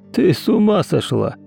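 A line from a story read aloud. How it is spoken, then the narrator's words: Snorting. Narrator (Russian): хмыкнул Ефим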